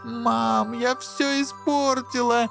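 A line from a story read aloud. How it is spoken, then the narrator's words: Screaming, choking on tears. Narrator (Russian): закричала она, захлебываясь слезами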